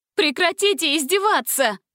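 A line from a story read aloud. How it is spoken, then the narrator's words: Shouting. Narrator (Russian): закричала Гретель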